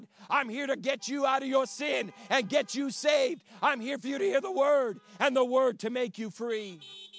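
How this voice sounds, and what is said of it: Strained, hoarse voice from shouting. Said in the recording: “I know I'm losing my voice a little bit ... I feel like I got to shout”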